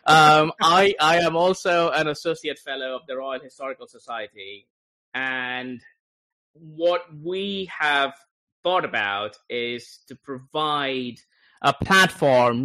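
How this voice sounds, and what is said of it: Foreign, non-American accent. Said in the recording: “as you can guess from my accent, not from this country”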